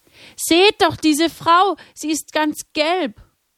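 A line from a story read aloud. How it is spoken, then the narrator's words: Frightened scream. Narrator (German): Erschrocken schrie jemand auf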